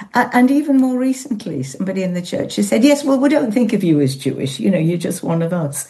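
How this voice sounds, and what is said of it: Yorkshire accent. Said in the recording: “you'd know it was Yorkshire, wouldn't you, from my accent?”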